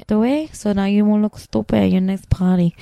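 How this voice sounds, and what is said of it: Put-on Mexican, Rosie Perez-like accent. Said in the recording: “That was like a mix of like Mexican and Rosie what, Perez. ... What the fuck accent was wait, that?”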